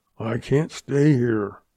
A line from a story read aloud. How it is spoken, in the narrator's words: Cheyenne muttered